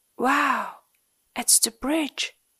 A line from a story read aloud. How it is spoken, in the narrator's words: whispered Ant